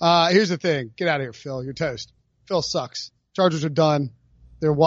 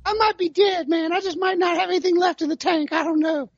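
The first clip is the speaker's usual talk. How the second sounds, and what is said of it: Imitates another person's voice. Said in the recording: “That was my tally Phillip Rivers impersonation, which was terrible.”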